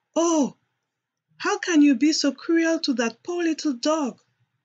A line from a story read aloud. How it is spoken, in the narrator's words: cried loudly